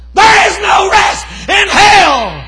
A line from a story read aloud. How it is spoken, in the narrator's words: screamed